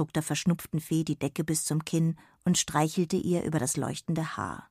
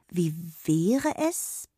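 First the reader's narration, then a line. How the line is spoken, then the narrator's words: Began hesitantly. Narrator (German): begann sie zögernd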